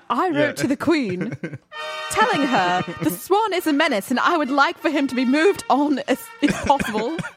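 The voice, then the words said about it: Put-on British accent. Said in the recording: “I should read this in a British accent.”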